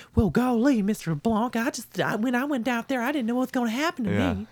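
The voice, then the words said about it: Exaggerated cartoonish Southern accent. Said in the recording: “goofy southern accent... She turns into a cartoon southern woman... not like a normal southern lady”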